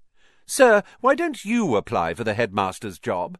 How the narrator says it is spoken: said Malfoy loudly

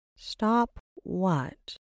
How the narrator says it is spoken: Rin asked, slowly and cautiously, like she was trying not to spook a deer

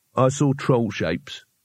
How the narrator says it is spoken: he said flatly

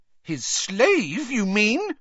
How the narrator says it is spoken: said Hermione, her voice rising shrilly

